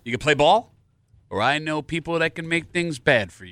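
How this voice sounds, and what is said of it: Nasal would-be tough-guy voice. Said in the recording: “Did I sound tough when I did it? ... A little nasally.”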